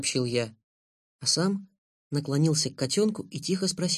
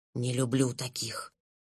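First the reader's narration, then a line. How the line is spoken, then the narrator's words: Kitten whisper. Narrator (Russian): прошептал котенок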